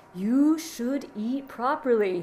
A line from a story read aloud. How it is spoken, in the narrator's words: he repeated slowly